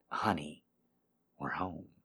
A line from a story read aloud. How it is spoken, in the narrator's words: he whispered into her ear